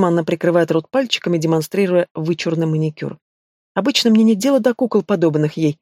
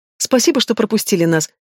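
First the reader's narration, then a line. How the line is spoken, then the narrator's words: Sudden giggle. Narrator (Russian): хихикает она вдруг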